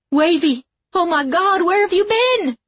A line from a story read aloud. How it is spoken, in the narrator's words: she shouted